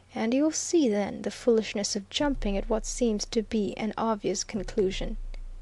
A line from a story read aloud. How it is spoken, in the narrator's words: said Viner quietly